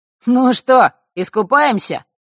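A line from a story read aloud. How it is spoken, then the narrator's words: Curious snort. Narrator (Russian): хмыкнул Маар, с любопытством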